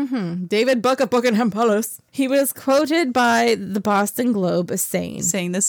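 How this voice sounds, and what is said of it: Usual voice. Nothing is said of it.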